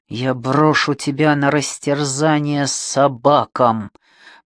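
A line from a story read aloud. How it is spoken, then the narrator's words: Menacing hiss. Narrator (Russian): прошипел он ей в лицо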